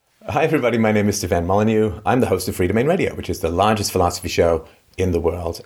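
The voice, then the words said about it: Vaguely British accent. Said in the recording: “Vaguely British accent.”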